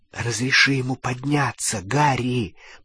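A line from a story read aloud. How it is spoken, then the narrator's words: Whisper. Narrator (Russian): прошептала Гермиона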